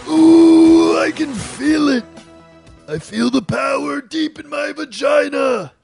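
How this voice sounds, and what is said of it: Comic talking-lion character voice. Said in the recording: “the bearded booger-eating talking lion known as Shuddy Boy ... that voice ... exclusive voices”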